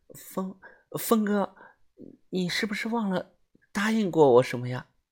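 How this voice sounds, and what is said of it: Quiet, shy voice. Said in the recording (Chinese): “很不好意思的小声的对着我讲”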